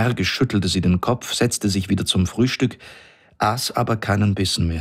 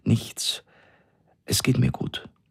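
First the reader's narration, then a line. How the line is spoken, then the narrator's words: Trembling voice. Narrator (German): sagte sie mit zitternder Stimme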